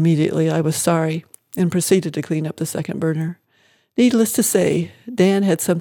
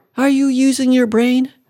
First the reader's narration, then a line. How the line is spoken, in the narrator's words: cried out